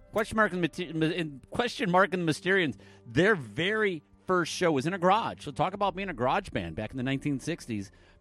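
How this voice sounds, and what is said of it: Michigan accent. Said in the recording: “Up in Michigan, yeah, that's where I'm from. That's where this weird accent comes from. It's not like a weird Canadian accent or a weird Ohio accent, no.”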